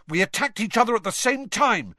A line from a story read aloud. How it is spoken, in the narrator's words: Harry shouted